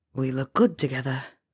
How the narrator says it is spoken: he whispered in her ear

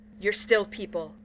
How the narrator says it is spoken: Sam says fiercely

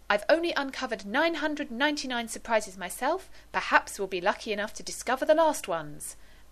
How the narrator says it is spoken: the man said happily

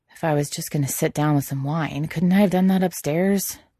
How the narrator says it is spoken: Quentin complains, but his voice is mostly lost under the sound of the fast music playing

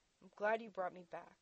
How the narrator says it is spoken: he said, more firmly this time, a statement of fact

